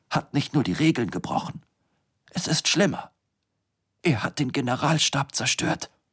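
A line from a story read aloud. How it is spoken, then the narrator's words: Whispering. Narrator (German): flüsterte er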